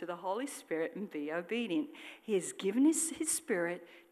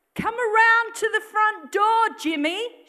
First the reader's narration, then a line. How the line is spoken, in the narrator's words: she shouted